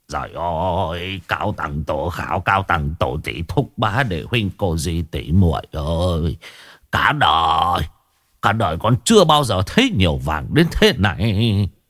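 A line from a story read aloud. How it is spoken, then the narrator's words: Possessed muttering. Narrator (Vietnamese): Lão lẩm bẩm nói một mình như người bị ma nhập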